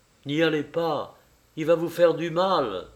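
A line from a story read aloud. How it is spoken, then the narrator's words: Exclamation. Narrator (French): s'écria Smurov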